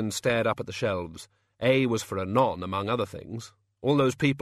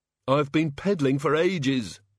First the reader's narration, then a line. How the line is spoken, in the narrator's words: panted the Ogod